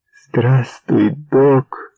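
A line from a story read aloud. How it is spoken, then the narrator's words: Joyful greeting. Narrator (Ukrainian): повторила радісно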